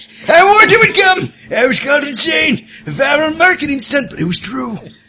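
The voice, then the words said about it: Crazy sailor character voice. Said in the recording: “do my crazy sailor voice”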